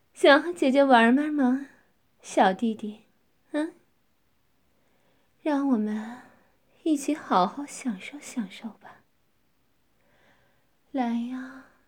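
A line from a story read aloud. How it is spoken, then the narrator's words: Smiling, seductive. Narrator (Chinese): 樱唇含笑着说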